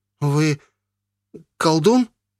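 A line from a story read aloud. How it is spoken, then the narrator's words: Frightened boy's gasp. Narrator (Russian): выдохнул не на шутку перепуганный парнишка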